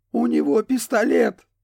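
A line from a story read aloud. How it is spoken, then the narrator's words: Hoarse blurt. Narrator (Russian): хрипло вытолкнул Риана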